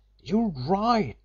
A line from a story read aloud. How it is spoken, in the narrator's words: he gasped as he sprang through